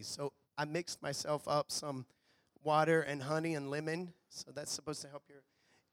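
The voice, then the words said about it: Rough, strained voice. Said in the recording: “my voice is a little rough today. For some reason, I lost my voice”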